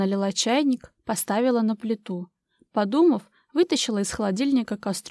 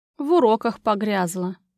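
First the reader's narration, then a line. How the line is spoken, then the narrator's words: Sigh. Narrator (Russian): вздохнула Юля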